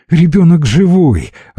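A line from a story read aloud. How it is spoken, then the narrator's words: Joyful. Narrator (Russian): радостно сообщила Лида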